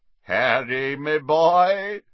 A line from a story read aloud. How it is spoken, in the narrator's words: said a booming voice from behind them